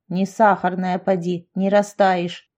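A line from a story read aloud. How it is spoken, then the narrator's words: Grumbling grandmother. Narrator (Russian): ворчала бабушка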